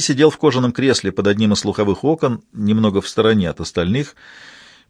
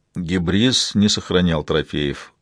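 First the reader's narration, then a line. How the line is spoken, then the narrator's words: Gloomy. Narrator (Russian): сказал Ги мрачно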